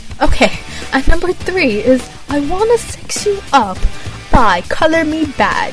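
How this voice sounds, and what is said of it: Poor attempt at British accent. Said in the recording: “add a Brit accent ... That was horrible. You know what? I'm never gonna get a British sound right.”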